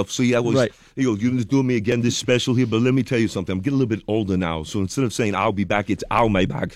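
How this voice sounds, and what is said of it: Arnold Schwarzenegger impression. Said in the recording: “everyone's doing Arnold. Okay, we do the Arnold stuff ... impersonation”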